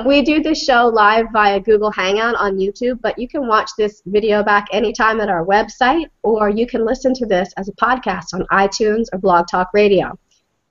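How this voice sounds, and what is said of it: Deep, congested cold-affected voice. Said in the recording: “I have a terrible cold, so I sound, I don't know if it's a sexy deep voice or just lame. I think it's lame.”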